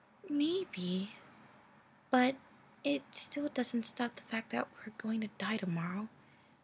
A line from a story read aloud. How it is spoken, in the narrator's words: she started, her voice growing quieter